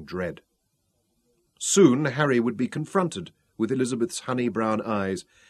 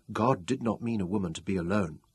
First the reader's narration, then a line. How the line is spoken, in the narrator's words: she murmured